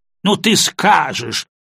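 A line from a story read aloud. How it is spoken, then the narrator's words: Snort and laugh. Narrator (Russian): Анна Макарна фыркнула и рассмеялась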